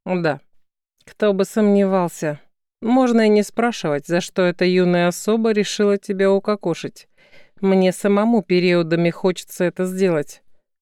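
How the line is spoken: Grumbling, hidden worry. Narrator (Russian): пробурчал Серый, скрывая тревогу за недовольством

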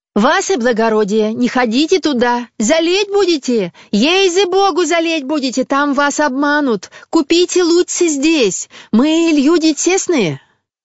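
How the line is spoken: Shouting in unison. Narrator (Russian): закричали все в один голос

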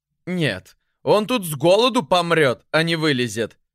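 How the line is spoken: Mocking, laughing hard. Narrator (Russian): сказали придворные и так хохотали над ним

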